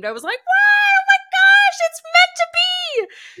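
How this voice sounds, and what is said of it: Squeaky high-pitched excited voice. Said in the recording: “that was like a Mickey Mouse high voice”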